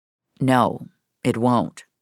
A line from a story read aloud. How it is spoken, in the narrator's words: Rogers said, his tone as serious as a heart attack